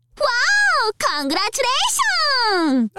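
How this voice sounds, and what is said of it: Very enthusiastic female voice. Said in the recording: “saying congratulations in a very enthusiastic voice.”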